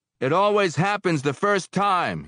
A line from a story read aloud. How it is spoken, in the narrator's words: he shouted, his voice small in the roar